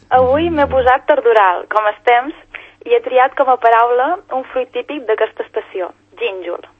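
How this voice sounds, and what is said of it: Regional Catalan accent. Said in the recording (Catalan): “Com ens encanta aquest accent”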